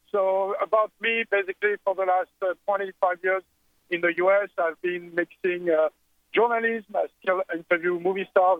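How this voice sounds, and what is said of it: French accent. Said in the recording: “I'm French. I mean, you can hear my silly accent. ... I can't hide that.”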